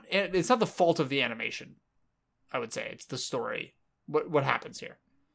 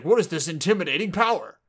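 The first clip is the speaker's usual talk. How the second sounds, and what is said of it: Cartoon character voice, like older Sonic. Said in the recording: “my Sasuke voice ... you sounded kind of like a older Sonic”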